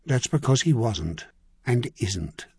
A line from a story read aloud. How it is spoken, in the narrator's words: Corris murmured